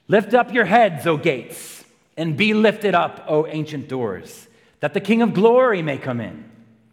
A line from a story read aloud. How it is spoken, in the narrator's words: And the general shouts